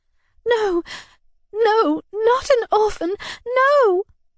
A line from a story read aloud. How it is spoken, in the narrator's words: said, and a moan broke from me